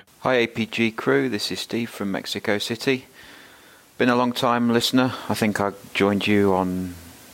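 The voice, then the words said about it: Yorkshire English accent. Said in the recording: “That does not sound like a Mexico City accent to me ... It's Mexico City in Yorkshire.”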